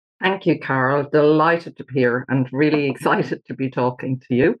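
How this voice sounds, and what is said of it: Irish accent. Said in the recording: “All the way from the west coast of Ireland ... Just slow me down if you can't understand the accent.”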